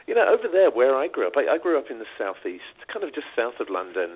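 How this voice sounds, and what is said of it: British accent. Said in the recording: “I grew up in the UK, as you may have told from the accent.”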